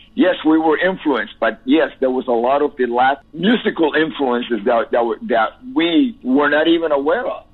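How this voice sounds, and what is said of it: Cuban Spanish accent in English. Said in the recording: “I have an accent. Yes, because I'm Cuban ... I didn't want to lose my accent”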